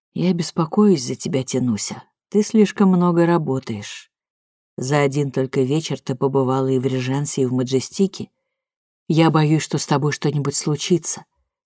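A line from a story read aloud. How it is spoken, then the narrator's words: Quiet tender. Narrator (Russian): Александр тихо произнес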